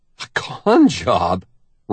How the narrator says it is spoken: Randy scoffs

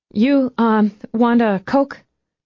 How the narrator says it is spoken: she offered nervously

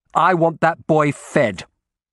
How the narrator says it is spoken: I snapped

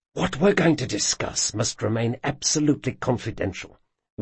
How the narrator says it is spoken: whispered Locke, leaning in so close

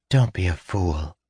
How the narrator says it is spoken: she murmured in his ear

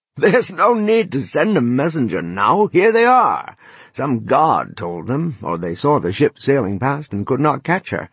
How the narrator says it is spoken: He laughed merrily and called out

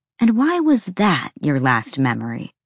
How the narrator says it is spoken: Bryce asked sweetly

